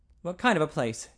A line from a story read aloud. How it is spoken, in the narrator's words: Jerry asked quickly